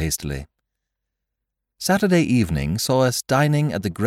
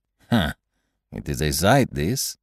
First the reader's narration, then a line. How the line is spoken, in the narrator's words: murmured Poirot